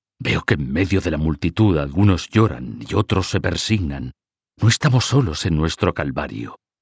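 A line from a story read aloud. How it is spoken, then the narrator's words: Quiet voice. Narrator (Spanish): dijo en voz baja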